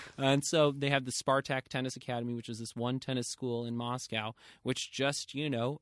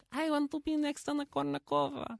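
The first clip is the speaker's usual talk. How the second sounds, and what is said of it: Put-on Russian accent. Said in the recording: “Except in a Russian accent. ... In a Russian accent,”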